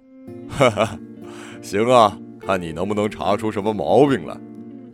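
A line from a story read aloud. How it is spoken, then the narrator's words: Father laughing heartily. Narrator (Chinese): 父亲大笑一声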